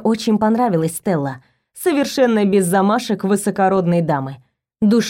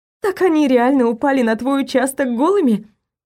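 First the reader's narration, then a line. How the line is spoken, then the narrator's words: Laughing. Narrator (Russian): смеялась Стелла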